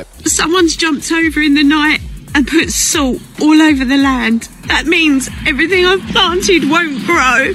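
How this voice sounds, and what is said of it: Accented voice, sounding sad. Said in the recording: “I don't know if it's the accent, but it sounds so much sadder when she explains it like that.”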